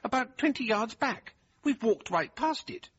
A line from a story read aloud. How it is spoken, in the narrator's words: he exclaimed